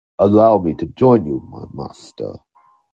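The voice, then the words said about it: Deep Darth Vader character voice. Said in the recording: “Did I just sound like Darth Vader just now? ... your Darth Vader accent”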